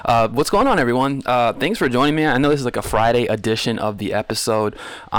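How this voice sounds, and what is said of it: Smooth late-night radio host voice. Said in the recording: “I got that good radio voice right now. I sound like I'm on Loveline or something.”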